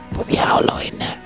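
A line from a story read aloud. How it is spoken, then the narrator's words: Hissed. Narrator (Greek): σφύριξε ο Γκόντζο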